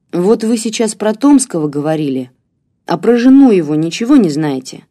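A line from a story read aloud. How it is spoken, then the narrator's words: Plain. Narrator (Russian): спросил Игорь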